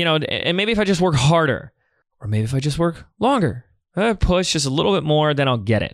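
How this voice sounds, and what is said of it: Usual voice. Nothing is said of it.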